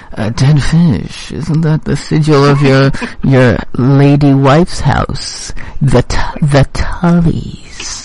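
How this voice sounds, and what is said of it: Imitated TV character voice. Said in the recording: “do my Littlefinger voice.”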